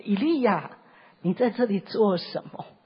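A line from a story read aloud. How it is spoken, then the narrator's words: Soft, gentle voice. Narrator (Chinese): 阿巴父就是像这个微小的声音一样，这么温柔，这么温柔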